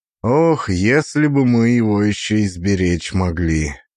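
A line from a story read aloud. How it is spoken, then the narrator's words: Sighing. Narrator (Russian): вздохнул Корней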